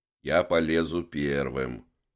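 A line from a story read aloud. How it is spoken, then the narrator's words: Grumbling. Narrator (Russian): проворчал он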